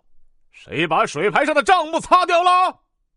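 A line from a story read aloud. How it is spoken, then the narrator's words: Furious stern demand. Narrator (Chinese): 更是火上浇油，气势汹汹的厉声问道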